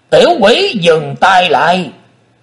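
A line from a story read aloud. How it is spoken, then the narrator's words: Shouted. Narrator (Vietnamese): Cũng theo tiếng quát đó, Xích Phát Âm Ma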